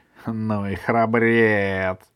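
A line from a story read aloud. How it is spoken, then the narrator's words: Deep laughing wolf. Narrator (Russian): захохотал басом волк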